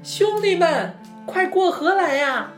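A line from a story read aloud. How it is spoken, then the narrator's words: Calling from afar. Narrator (Chinese): 小玉在对面喊道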